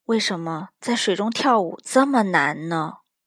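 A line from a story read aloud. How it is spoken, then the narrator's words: Soft sigh. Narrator (Chinese): 她轻轻的叹了口气说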